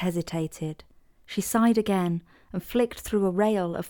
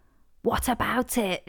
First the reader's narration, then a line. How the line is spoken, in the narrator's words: she asked, returning the faux whisper